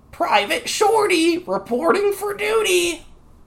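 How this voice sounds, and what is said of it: Video game character voice line. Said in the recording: “best Hearthstone impression”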